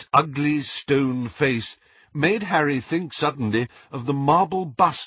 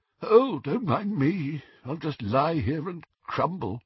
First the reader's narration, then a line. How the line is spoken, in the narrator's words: one of their disembodied heads, it moaned faintly